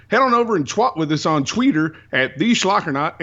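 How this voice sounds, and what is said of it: Put-on Southern twang. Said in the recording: “I can't do East Coast, apparently, but I can do Southern. I can do twang. ... get that twang back on ... my friends back there are going to say that was awful”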